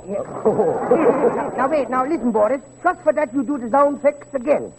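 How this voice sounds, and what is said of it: Dutch accent. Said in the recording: “What, with a Dutch accent?”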